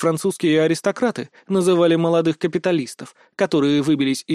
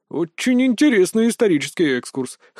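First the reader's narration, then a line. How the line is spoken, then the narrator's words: Wry snort. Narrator (Russian): хмыкнул Гичон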